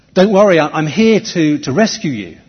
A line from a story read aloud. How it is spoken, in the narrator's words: a bloke comes down on a rope, and he shouts at the top of his voice